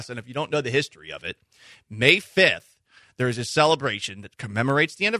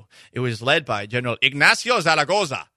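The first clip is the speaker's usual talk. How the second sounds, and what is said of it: Put-on Spanish accent. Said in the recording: “Anyone like my Spanish accent?”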